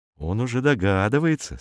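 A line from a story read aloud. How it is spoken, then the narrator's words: Plain. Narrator (Russian): сказал Роман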